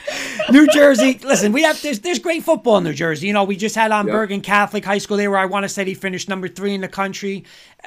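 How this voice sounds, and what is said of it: New Jersey accent. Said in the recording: “we're from New Jersey ... I could never have told by the accent.”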